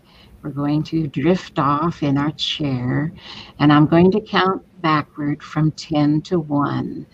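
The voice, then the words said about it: Soothing hypnosis voice. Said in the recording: “puts on a very specific voice when she does her hypnosis”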